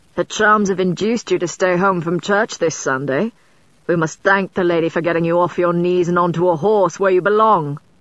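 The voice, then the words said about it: Thick Devonshire accent. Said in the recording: “his accent as thick as Devonshire cream”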